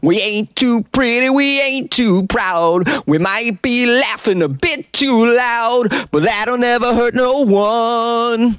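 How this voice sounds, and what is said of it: Sung imitation of another person's voice. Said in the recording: “pretty good Billy Joel impression”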